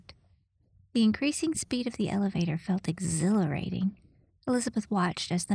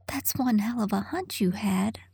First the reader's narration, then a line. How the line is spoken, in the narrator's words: Elizabeth gasped